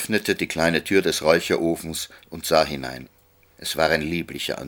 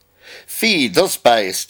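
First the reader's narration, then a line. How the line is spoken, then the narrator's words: Old man calling out. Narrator (German): rief der alte Herr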